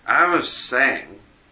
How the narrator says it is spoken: continued Tom thickly

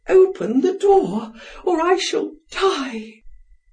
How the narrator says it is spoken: almost fainting, she cried

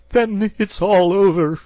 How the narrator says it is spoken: sobbed the toad, crying into the sofa cushions

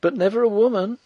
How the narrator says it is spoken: cried the girl

